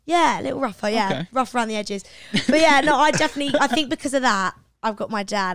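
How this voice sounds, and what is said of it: British English accent. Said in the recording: “I'm not going to lose that real British accent”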